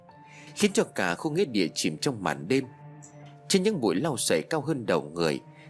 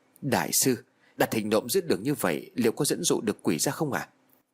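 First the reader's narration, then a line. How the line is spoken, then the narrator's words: Hushed whisper, hiding. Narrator (Vietnamese): Tà Cường nấp vào trong bụi cây cất tiếng thì thào hỏi lại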